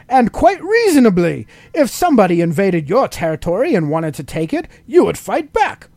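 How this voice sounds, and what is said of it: Put-on English accent. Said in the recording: “Now I can do my English accent.”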